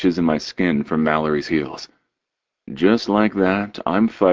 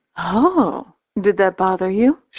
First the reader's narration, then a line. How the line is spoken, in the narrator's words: She asks sweetly